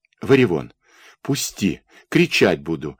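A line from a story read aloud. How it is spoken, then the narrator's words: Angry. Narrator (Russian): заговорила она сердито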